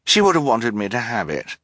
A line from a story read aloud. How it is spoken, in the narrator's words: Esme said quickly